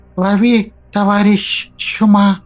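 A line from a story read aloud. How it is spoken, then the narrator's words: Lisping voice inside head. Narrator (Russian): Раздался в моей голове шепелявый голос злыдня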